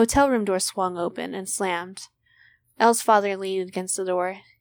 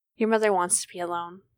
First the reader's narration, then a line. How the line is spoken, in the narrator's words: said